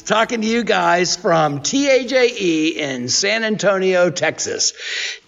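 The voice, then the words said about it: Radio announcer voice. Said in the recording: “in my radio voice”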